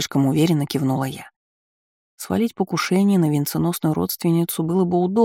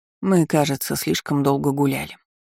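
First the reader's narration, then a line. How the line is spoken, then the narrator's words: Aunt's sigh. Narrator (Russian): вздохнула тетушка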